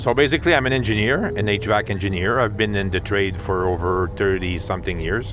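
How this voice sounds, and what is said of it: English with a French-Canadian accent. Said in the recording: “I'm from uh, Montreal, Quebec, so we speak French basically. So you have to uh, forgive me for my accent. ... very endearing English”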